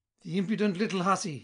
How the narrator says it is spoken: he cried

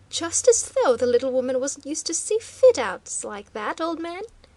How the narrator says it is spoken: mocked Waldo the irrepressible

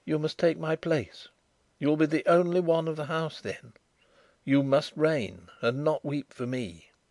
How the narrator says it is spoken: whispered

